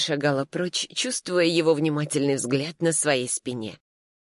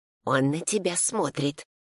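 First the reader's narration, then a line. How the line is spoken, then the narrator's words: Whisper. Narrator (Russian): шептала она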